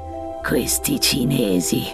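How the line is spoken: Muttered by a chief. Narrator (Italian): borbotta il capo

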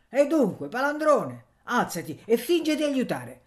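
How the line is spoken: Shouted. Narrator (Italian): Zio Pera gridò

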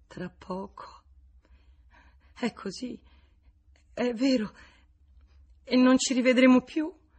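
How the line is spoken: Choked with sobs. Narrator (Italian): I singhiozzi la soffocavano

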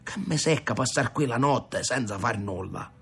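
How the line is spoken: Grumbled. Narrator (Italian): brontolò Rocco

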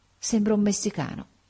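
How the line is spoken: Murmured. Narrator (Italian): mormorò

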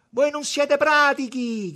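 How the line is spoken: Shouting. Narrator (Italian): gridava

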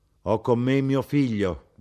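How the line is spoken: Plain. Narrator (Italian): disse

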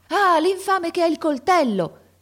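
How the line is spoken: Man shouting. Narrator (Italian): gridò un uomo

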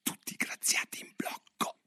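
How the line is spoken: King speaking in a low voice. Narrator (Italian): il re che a bassa voce diceva

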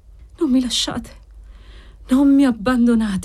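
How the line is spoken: Patient sighing. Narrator (Italian): sospirava l'assistito

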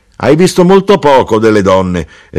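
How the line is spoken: Mother exclaiming. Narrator (Italian): esclamò mia madre

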